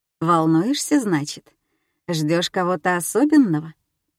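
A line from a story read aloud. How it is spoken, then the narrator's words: Purring. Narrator (Russian): он практически промурлыкал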